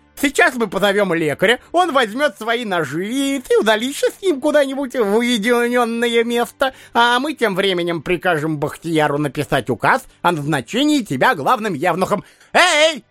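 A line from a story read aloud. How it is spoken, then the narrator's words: Shouted. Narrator (Russian): крикнул эмир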